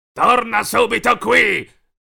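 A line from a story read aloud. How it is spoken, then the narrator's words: Furious growl, werewolf. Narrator (Italian): ringhiò furioso il lupo mannaro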